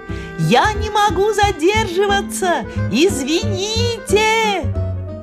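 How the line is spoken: Laughing. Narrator (Russian): смеялась

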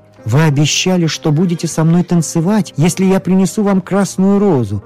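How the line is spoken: Exclamation. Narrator (Russian): воскликнул студент

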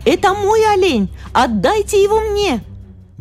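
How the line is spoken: Girl shouting. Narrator (Russian): Дейзи закричала ему

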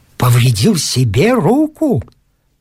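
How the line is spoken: Contemptuous exclamation. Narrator (Russian): с презрением воскликнул капитан Катлер

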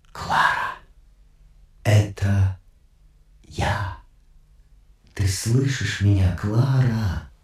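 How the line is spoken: Whisper into phone. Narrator (Russian): незнакомец прошептал в трубку

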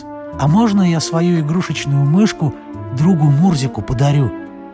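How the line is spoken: Plain. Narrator (Russian): спросил Мурчик

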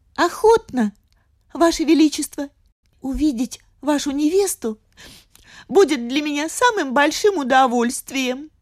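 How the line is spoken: Trembling voice. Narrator (Russian): ответил дрожащим голосом

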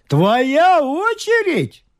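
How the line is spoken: Exclaiming. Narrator (Russian): воскликнул лорд

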